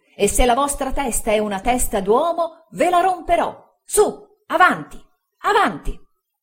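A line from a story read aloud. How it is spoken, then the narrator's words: Shouted. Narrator (Italian): gridava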